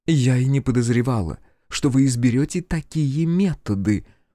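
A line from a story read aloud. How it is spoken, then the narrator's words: Cold whisper, senior governess. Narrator (Russian): холодно прошептала старшая гувернантка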